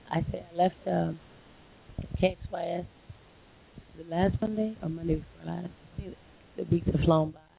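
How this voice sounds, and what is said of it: Hoarse voice. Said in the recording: “I'm a little hoarse because I've been singing pretty much all night ... I'm a little hoarse, so you guys can't really hear me that well”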